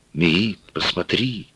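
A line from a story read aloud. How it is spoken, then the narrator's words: Whispering. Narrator (Russian): Ганиль шептал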